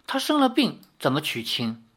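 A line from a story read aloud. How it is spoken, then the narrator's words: Plain. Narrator (Chinese): 尚书夫人说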